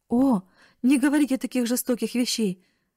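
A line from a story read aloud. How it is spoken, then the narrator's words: Exclamation. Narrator (Russian): воскликнула бедная Нетти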